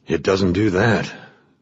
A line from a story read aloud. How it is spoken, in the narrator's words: sighed